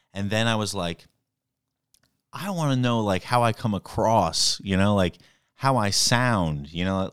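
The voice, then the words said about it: New York accent. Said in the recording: “you sound New York-y, you know, you're like from New York”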